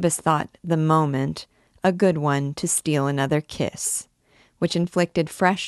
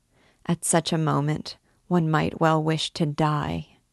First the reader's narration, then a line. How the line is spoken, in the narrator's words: she murmured